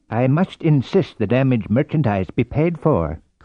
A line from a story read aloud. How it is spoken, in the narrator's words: said the clerk stiffly